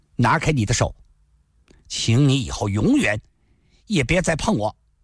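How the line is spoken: Calm and cold. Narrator (Chinese): 林诗音神情突然镇定下来，冷冷地说道

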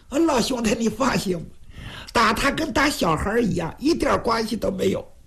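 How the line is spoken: Flippant, grinning. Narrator (Chinese): 徐良……仍然是嬉皮笑脸

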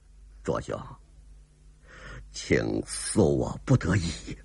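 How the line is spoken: Soft sigh. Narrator (Chinese): 黑人轻轻一叹

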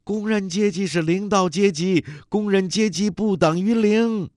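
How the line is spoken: Shouting. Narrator (Chinese): 女工又喊

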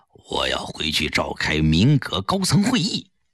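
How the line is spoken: Quiet voice. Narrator (Chinese): 小声告诉他

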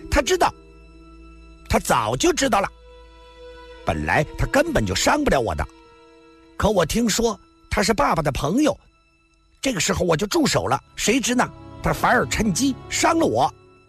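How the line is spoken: Sudden loud. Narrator (Chinese): 红孩突然大声地说道

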